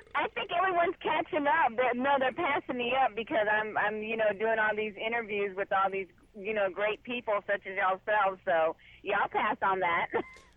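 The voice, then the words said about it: Texas accent. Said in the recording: “Did you hear that true Texas right there? ... I love that accent.”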